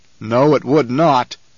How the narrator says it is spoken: the Baron growled

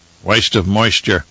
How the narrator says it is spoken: Turok muttered

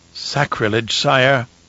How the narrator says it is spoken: Fenring murmured

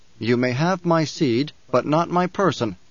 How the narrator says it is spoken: Paul said

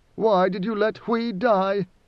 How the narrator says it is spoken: Idaho moaned

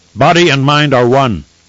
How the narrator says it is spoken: Kor responded, his voice as sharp as his blade

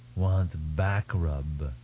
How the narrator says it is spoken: the Futar said

